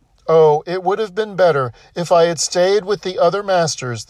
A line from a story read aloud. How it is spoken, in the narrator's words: the donkey cried